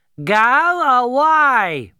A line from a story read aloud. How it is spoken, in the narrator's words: Nkwing shouted